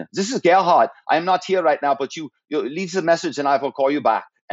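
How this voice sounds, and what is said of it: Imitated foreign executive's accent. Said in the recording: “I would hear his accent. I go, oh, I can do that accent.”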